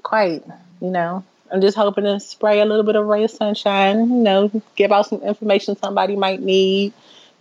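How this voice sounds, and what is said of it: DMV regional American accent. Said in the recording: “we got to meet that DMV accent quota”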